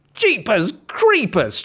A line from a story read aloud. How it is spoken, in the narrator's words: shouted the wolf